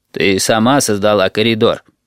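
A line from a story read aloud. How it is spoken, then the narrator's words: Deep booming drone. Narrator (Russian): прогудел Little People Bus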